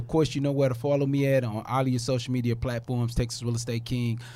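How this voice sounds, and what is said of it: Deep, husky, congested voice. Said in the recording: “Y'all got to excuse my Billy D. Williams voice ... I was a little choked up this morning ... my Billy D. Williams voice.”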